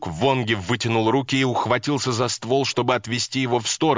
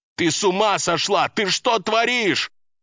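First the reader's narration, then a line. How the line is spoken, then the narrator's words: Shouted. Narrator (Russian): Выкрикнув, Вонги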